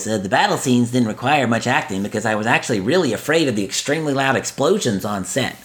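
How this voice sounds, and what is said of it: Imitates another person's voice. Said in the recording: “in my best Matthew Broderick voice ... I don't do good impersonations ... that one was spot on”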